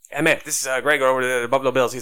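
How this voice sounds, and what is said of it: Slight southern accent, talks fast. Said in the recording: “this like guy with this little bit of a southern accent. Talks real fast.”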